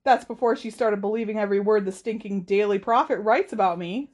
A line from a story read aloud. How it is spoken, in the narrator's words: said Harry at the top of his voice